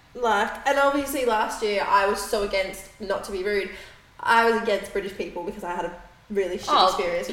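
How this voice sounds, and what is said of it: London Surrey English accent. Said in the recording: “I now have a very nice London, Surrey accent”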